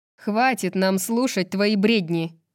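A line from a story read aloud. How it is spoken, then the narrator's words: Loud muffled growl. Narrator (Russian): Итан громко и глухо зарычал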